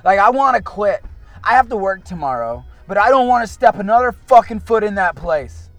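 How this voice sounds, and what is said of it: Raised, agitated voice. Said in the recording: “I know I'm still, my voice is raised”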